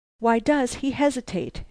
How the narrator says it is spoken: she cried

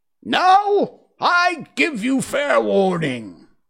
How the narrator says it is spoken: shouted the Queen

